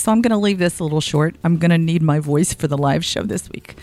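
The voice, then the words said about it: Voice affected by a cold. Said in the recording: “I am recovering from a cold. You may be able to hear that in my voice”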